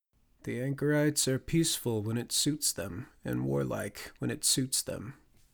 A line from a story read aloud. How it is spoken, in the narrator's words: Walleye sighed